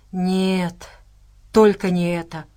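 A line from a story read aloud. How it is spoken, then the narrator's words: Groaned. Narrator (Russian): простонал он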